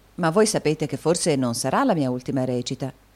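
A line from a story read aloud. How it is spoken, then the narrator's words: Plain. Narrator (Italian): disse Nicola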